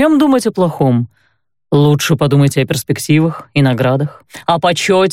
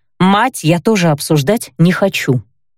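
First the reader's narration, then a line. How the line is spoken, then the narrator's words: Sharp interruption. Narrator (Russian): резко прервала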